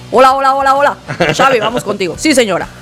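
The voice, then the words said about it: Imitates another person's voice. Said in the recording (Spanish): “Quiero tu mejor imitación de Xavi Delgado”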